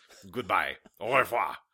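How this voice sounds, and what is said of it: Put-on French accent. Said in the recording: “break out that French accent”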